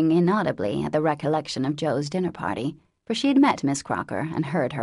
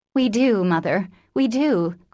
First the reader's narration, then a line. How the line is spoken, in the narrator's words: cried the girls